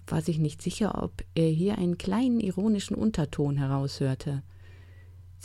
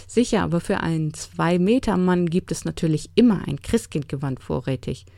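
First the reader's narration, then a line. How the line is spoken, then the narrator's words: Laughing interruption. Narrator (German): unterbrach lachend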